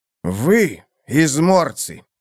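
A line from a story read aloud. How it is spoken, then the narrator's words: Angry. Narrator (Russian): сказал злым голосом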